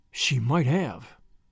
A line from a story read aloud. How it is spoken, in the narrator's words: whispered Marilla